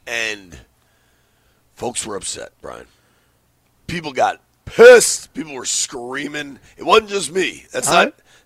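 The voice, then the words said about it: Hoarse, worn-out voice. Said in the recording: “My voice went.”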